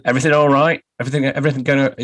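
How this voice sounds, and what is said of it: Put-on Northern English accent. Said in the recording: “I'm doing a Northern accent, if anyone can tell. ... I can only do it in a Northern accent.”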